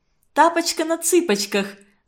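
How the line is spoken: Laughing. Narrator (Russian): засмеялась Фаина

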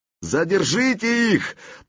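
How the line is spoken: Strained shout. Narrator (Russian): напрягая горло, выкрикнул князь

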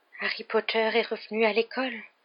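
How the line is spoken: Dismayed murmur. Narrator (French): murmura-t-il consterné

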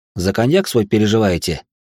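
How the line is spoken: Joyless snort. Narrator (Russian): Он невесело хмыкнул

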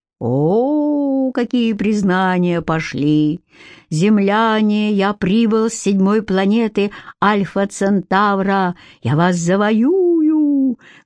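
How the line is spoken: Muffled declaiming. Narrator (Russian): глухим голосом продекламировал Костя

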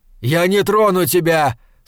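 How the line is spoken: Shout again. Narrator (Russian): снова крикнул

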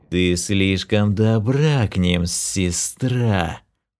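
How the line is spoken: Hissing brother. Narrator (Russian): Прошипел ее брат

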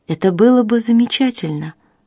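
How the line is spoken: Sighing. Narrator (Russian): вздохнула мисс Хендерсон

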